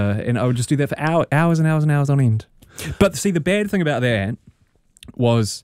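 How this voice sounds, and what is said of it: Usual voice. Nothing is said of it.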